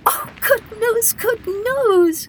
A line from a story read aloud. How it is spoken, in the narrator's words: he cried